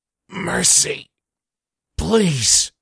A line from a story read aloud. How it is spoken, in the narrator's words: Connors gasping says